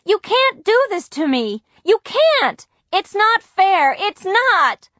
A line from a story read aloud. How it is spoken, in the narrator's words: cried